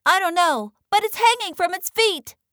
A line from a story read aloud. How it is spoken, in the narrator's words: chirped Flitter